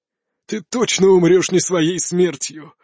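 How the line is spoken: Old man laughing loudly. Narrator (Russian): расхохотался старик

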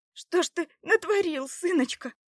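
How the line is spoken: Exclamation. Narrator (Russian): воскликнула Добронрава

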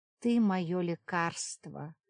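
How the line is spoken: Muttering. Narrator (Russian): бормотал Йоган

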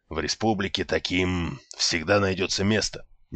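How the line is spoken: Quiet, host speaking. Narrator (Russian): негромко сообщил хозяин

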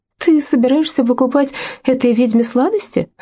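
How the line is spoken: Exclaimed. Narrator (Russian): воскликнула Лаура

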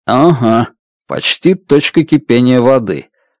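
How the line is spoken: Plain. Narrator (Russian): ответил

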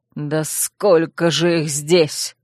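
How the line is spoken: Growling. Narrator (Russian): прорычал Урсул, отбиваясь мечом

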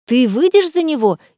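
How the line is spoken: Several girls exclaiming in astonishment. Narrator (Russian): изумленно воскликнули несколько однокурсниц

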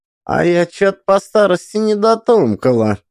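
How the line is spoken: Thoughtful toothless mumble. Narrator (Russian): задумчиво зашамкала секретея

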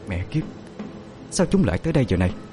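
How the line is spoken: Frightened muttering. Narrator (Vietnamese): ả lẩm bẩm

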